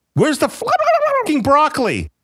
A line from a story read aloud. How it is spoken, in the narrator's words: the one screamed